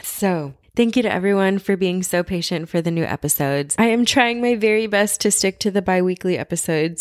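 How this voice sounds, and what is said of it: Quiet, raspy voice. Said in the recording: “I am talking a little bit quieter than normal ... my voice is raspy because we have been sick”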